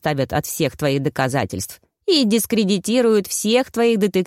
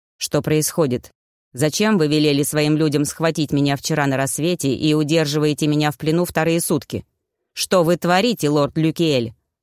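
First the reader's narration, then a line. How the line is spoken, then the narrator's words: Plain. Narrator (Russian): спросил Молкиаль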